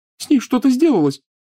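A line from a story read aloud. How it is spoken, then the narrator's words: Sobbing. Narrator (Russian): всхлипывала Лиана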